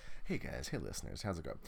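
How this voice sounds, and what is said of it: Deep low Barry White-style voice. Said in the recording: “Barry White ... my voice is all down here”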